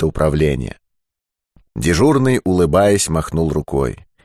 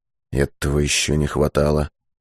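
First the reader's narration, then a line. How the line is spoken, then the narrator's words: Mutter. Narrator (Russian): пробормотал Быков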